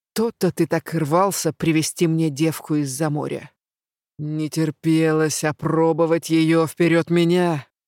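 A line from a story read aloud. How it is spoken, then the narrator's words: Growling. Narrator (Russian): Голос превратился в рычание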